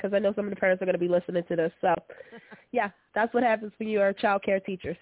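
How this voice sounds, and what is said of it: Congested voice from a cold. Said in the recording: “this is normally not my voice. I have a cold”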